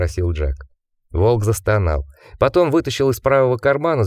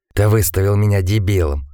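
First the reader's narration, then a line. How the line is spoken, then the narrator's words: Indignant whisper. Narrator (Russian): Возмущенно шепнул Сингер Джеку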